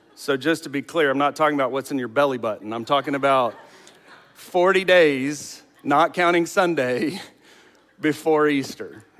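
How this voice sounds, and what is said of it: Southern American accent. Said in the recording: “apparently with a Southern accent. Lent, L-I-N-T and L-E-N-T both sound the same when I say them.”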